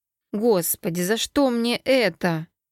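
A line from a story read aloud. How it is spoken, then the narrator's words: Inward groan. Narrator (Russian): простонала я про себя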